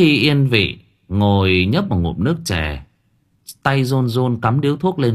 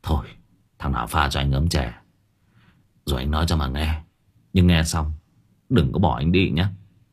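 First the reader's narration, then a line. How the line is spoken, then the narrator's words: Sighing. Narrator (Vietnamese): ông chủ quán thở dài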